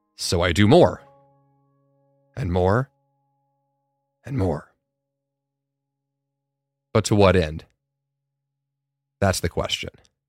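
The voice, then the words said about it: Lowered, deep voice. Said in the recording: “raise my voice a little above the uh, the low timbre that I had going here”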